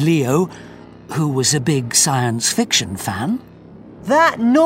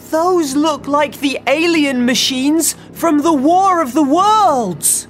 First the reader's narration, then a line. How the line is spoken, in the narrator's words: shouted Leo